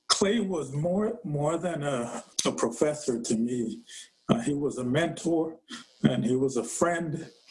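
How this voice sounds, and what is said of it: Voice breaking, tearful. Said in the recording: “my voice is breaking a bit ... I didn't know I would start out this talk with tears”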